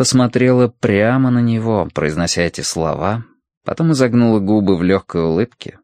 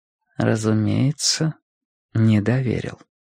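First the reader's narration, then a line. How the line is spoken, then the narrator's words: Quiet. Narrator (Russian): тихо сказала она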